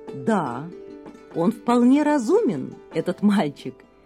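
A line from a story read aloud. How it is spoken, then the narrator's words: King laughing. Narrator (Russian): засмеялся царь, услышав о словах Ямуначарьи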